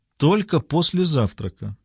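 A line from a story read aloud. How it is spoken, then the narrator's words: Plain. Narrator (Russian): сказала она вслед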